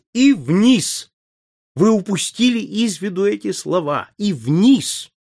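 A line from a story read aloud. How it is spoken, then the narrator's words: Joyful shout. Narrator (Russian): Мусгрев радостно закричал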